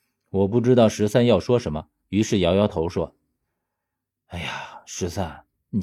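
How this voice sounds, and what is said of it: Usual voice. Nothing is said of it.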